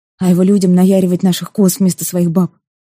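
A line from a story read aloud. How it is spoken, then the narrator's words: Grumbling mutter. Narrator (Russian): буркнул Эльдьярн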